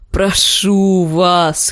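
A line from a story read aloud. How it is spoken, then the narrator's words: Hoarse wheeze. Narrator (Russian): хрипел пес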